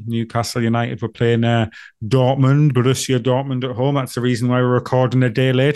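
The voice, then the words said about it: Monotone, sick-sounding voice. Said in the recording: “I'm poorly ... my my uh, uh, voice that is even more monotone than usual. I'm I've got the man flu. Uh, I'm not well at all.”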